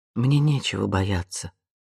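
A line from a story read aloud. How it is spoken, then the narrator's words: Quiet reply. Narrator (Russian): тихо ответила она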